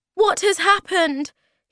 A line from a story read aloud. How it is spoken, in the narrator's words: He cried